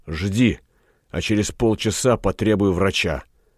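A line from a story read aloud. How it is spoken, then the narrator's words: Whispered. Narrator (Russian): шепнув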